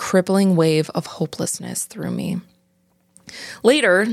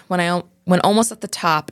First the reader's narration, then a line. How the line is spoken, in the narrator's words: Dean shouted